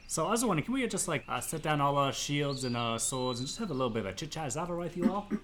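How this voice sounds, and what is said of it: Character voice with shifting accent. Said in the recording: “my accent keeps changing, it's just part of my character, it's gonna change quite a bit”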